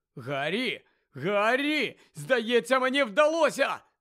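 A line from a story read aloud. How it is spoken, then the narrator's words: Shout. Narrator (Ukrainian): закричав Шеймус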